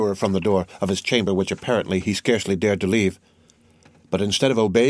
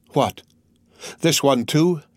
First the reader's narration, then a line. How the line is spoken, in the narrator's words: he exclaimed